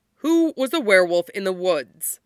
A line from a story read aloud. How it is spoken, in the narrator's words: Mikhail asks, his voice tight and angry